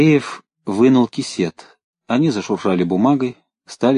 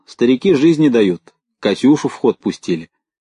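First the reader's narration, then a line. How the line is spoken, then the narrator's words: Cheerful loud, military man. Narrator (Russian): Сидевший на соседней скамейке военный весело и громко сказал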